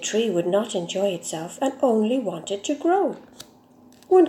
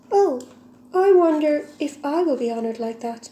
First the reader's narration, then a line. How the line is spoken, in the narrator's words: exclaimed